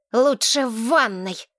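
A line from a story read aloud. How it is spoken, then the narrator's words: Angry hiss. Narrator (Russian): зло прошипел Ривергейл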